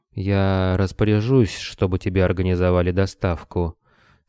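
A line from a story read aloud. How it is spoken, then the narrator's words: Weary sighing regret. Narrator (Russian): сказал и тяжело вздохнул, словно сожалея о том, что и такими мелочами приходится заниматься лично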